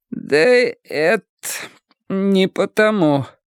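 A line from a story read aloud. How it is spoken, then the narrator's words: Forced out, strained. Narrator (Russian): выдавила Холли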